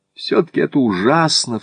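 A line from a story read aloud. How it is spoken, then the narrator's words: Sobbing. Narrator (Russian): всхлипнула Джой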